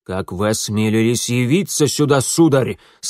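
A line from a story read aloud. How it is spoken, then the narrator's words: Menacing, senior official. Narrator (Russian): сказал грозно старший секретарь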